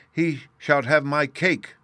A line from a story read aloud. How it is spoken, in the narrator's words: cried, passionately struggling